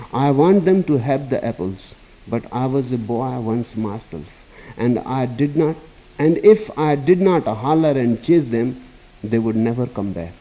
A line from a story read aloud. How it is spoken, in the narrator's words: laughed Nasruddin